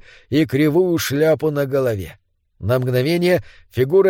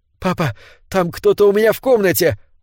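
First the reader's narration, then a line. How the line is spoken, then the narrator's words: Exclaiming. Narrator (Russian): воскликнул он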